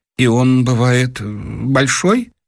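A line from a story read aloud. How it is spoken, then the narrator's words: Choked timid question. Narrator (Russian): Дровосекин как бы поперхнулся и робко спросил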